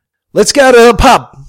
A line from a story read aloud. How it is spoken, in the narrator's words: Sheila yelled